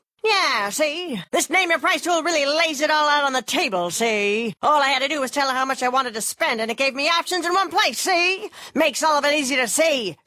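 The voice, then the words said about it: 1930s gangster voice. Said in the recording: “this is my impression of a 1930s gangster”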